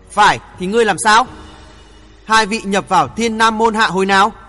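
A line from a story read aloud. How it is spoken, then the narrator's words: Harsh, gritted question. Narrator (Vietnamese): Hắc yêu gằn giọng hỏi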